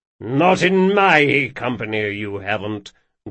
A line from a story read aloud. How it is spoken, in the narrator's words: growled Moncrane